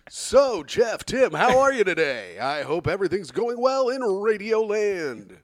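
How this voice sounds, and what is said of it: Imitated morning radio host voice. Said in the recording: “She morning radioed you guys ... She didn't even do her voice ... That's pretty good ... You should be a radio guy.”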